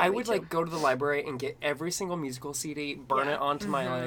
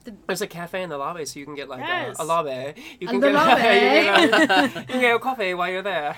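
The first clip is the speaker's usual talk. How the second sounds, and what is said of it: Put-on mid-Atlantic accent. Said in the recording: “I like this accent... it's not quite Irish... She's mid-Atlantic. you can't really tell where she's from... accent that every actress had in, like, those, like, 50s movie musicals... Good diction accent.”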